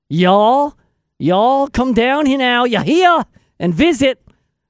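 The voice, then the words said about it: Put-on accent. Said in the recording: “I don't know what kind of accent that is.”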